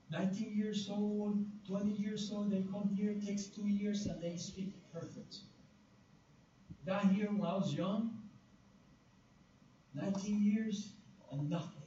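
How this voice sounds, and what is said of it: Non-native English accent. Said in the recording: “even with my accent ... It's not about my accent ... I have like a language barrier here”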